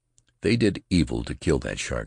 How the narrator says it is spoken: she said

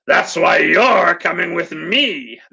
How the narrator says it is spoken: the alligator person snarled

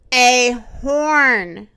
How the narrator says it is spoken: said the rhinoceros

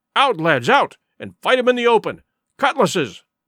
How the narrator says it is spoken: cried the captain

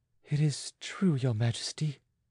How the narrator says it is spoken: she faltered in a feverish abstraction

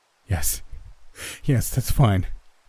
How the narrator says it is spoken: I choked out, sobbing

